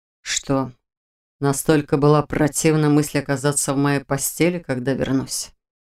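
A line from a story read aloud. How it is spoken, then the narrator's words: Quiet hoarse question. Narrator (Russian): спросил Шелтер тихо и хрипло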